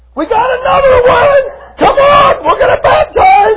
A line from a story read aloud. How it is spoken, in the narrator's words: I would ... yelling